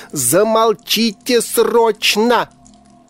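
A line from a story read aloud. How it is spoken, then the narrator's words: Deafening roar. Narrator (Russian): взревела дергающаяся гроза вампиров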